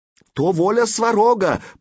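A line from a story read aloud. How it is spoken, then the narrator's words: Hasty shout. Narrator (Russian): поспешно крикнул он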